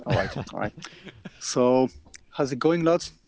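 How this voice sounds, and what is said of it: Irish accent. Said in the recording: “he says you can do a great Irish accent”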